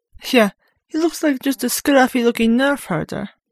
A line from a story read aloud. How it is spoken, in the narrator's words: Darth Fortiri added, and the two laughed to intimidate him